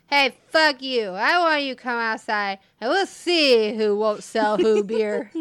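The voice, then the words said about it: Drunk-sounding voice. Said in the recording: “I've said this in a drunk voice.”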